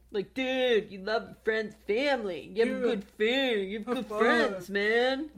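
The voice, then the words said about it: Put-on frat boy accent. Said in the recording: “the frat boy accent.”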